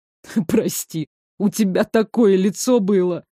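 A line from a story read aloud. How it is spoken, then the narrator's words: Groaning. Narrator (Russian): простонал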